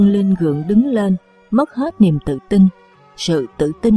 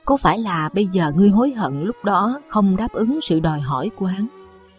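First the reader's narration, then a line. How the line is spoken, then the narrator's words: Sarcastic. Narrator (Vietnamese): Đinh Vân Lâm mỉa mai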